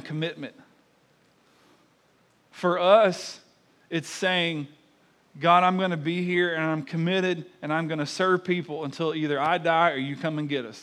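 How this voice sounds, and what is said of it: Southern US accent. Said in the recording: “my fine southern accent”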